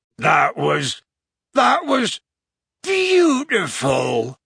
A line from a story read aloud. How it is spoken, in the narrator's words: howled Hagrid, crying harder than ever